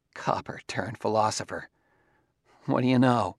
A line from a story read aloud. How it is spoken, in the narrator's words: when paused in sheer emotional exhaustion, he said weakly